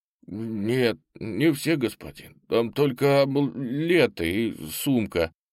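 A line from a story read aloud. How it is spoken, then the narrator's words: Mumbling. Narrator (Russian): промямлил секретарь убитого полковника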